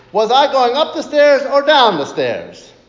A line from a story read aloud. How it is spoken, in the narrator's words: yells out